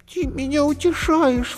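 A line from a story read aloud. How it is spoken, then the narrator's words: Sobbing. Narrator (Russian): всхлипнула Зайка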